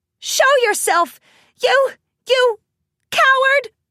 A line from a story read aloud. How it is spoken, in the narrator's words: Rainbow squeaked